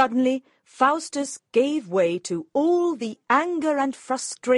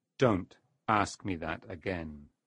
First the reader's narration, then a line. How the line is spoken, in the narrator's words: Mephistopheles said menacingly